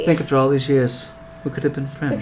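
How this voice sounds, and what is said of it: Character voice with an accent. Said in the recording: “I gave her that accent”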